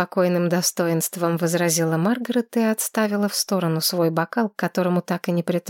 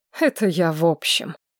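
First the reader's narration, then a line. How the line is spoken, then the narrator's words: Snorting. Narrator (Russian): хмыкнул Линнард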